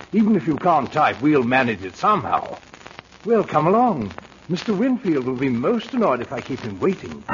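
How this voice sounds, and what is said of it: English accent, butler voice. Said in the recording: “the butler with the English accent”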